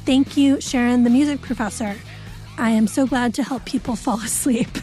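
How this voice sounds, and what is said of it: Soothing, calm podcast voice. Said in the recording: “I also love your podcast voice. It may not be your day-to-day voice, but it is wonderfully soothing”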